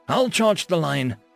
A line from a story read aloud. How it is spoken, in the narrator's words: the human shouted